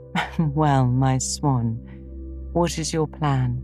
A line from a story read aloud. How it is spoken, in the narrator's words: March laughed and smoothed down her maternal pride as she asked